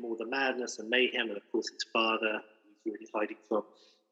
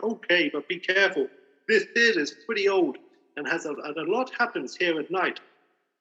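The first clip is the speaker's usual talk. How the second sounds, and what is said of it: Poor impression of Muppet Beauregard. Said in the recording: “It's not a very good Beauregard impression.”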